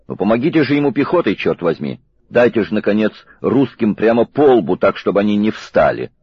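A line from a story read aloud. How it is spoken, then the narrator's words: Shout. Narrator (Russian): Король крикнул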